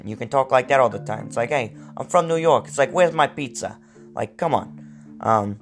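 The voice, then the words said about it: Put-on New York accent. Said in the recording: “you can get into a New York accent.”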